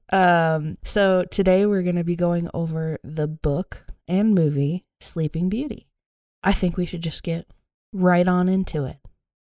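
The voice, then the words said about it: Sore-throated, quiet voice. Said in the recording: “I have a little bit of a sore throat, and I'm sure you can tell. So this episode might be more like a ASMR, quiet”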